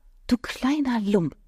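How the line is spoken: Mumbled. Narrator (German): nuschelte sie

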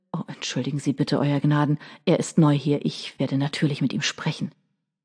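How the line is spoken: Murmuring. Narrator (German): Johnston murmelte

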